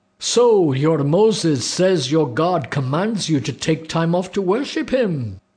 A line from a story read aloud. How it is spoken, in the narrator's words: shouted